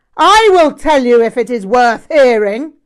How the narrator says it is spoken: Rinpoche shouted

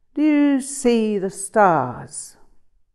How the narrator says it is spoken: Tsar Paltrow said, in a long, languid voice

